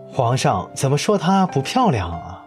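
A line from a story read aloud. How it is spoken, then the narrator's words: Loud, armored man. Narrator (Chinese): 那个甲上嵌着金花、盔上蹲着一头双翼雄狮的人大声说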